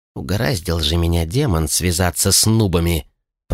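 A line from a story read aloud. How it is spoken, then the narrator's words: Grumbled. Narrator (Russian): пробурчал торговец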